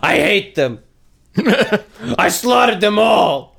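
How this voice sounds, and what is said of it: Good impression of a movie character. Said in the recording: “it's actually a really good Anakin impersonation”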